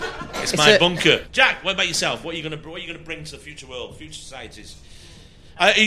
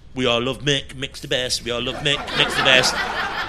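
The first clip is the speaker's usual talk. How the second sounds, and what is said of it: Fake reggae accent, sung chant. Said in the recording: “Why are you doing a cod reggae accent?”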